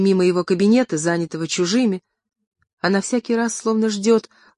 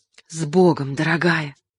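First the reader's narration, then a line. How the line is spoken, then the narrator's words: Whisper. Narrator (Russian): шептал ей Олег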